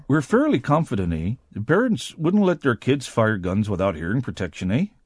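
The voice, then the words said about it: Put-on Canadian accent. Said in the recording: “That is an excellent Canadian accent.”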